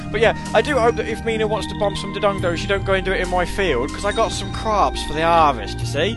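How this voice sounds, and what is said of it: Put-on Somerset farmer accent. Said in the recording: “I'm in a Somerset accent, which means that I'm some sort of backwards farmer”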